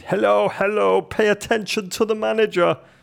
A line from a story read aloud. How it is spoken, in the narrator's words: He shouted